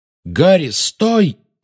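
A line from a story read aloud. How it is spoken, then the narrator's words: Exclaiming. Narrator (Russian): воскликнул Люпин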